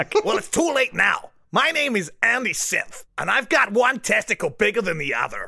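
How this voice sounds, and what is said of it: Impression of a fellow host. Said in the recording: “just do an impression of me”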